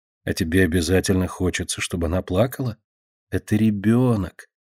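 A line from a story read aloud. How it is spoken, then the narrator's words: Quiet reply. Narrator (Russian): так же тихо отвечает ей Марина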